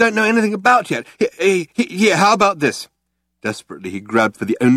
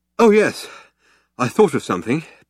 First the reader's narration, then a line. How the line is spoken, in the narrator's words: panted Ford